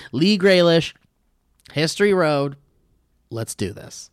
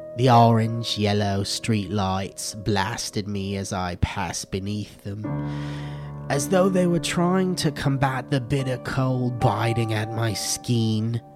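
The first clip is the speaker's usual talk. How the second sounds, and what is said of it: Put-on British accent. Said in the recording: “feel free to read the rest of this in a British accent ... Do it better.”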